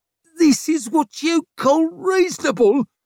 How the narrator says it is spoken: squealed the one with the arrow in his shoulder

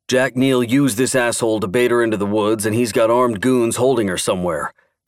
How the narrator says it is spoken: Clark grunted

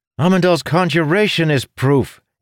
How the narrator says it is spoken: Ilden blurted

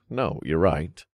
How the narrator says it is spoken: I chuckled

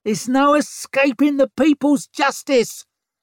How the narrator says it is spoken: squealed a woman

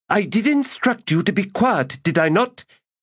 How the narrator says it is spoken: snapped Sordico Quam

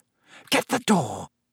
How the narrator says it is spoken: Aunt Petunia hissed at Harry

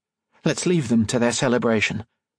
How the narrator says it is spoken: Octavia said

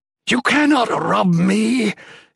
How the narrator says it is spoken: it howled

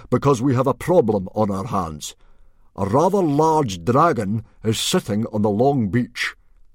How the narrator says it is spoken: boomed Stoic

